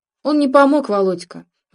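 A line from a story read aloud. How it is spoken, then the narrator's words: Sighing. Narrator (Russian): вздохнул Сергей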